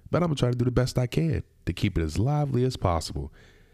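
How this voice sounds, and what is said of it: Slightly nasal, congested voice. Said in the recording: “I'm actually getting over a cold. So if I sound a little nasally”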